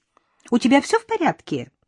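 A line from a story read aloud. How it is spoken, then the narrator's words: Rapid, high, childlike voice. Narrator (Russian): зачастила она своим высоким, почти детским голосом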